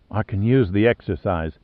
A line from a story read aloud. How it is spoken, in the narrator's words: said softly